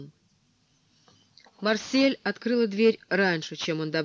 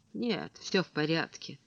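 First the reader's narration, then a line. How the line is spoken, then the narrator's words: Quiet reply. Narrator (Russian): тихо отозвалась Марсель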